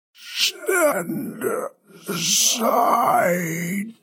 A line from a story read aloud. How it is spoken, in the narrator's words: Gory wheezed